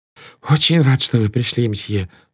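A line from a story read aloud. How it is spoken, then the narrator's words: Relieved sigh. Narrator (Russian): сказал проводник, вздохнув с облегчением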